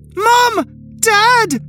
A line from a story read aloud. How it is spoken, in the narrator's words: I had screamed